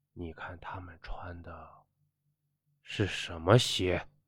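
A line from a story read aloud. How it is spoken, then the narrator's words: Low startled cry. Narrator (Chinese): 他不禁低声的惊叫起来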